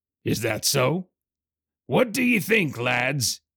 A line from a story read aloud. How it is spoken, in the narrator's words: bellowed